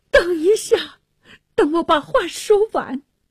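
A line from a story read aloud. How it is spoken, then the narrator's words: Pleading. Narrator (Chinese): 纳沙尔 哀求着说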